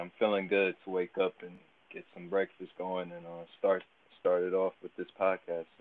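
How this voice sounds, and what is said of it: Partially lost, strained voice. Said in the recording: “trying to recover from is my voice a little bit from speaking out ... very loud and lost my voice partially, but it's there a little bit”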